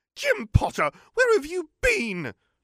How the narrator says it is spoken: she shrieked at the embarrassed boy

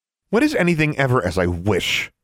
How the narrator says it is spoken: Alexandra snapped

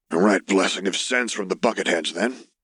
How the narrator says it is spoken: his uncle growled out

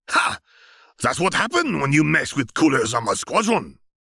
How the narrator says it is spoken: Salza shouted

